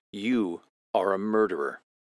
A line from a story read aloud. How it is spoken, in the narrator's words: Helleran says calmly